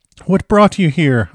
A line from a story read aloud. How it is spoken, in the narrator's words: I cried